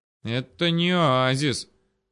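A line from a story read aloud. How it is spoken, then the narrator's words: Regretful drawl. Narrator (Russian): с сожалением протянул Макс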